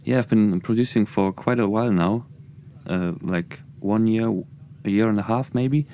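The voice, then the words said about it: German accent. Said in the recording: “my German accent”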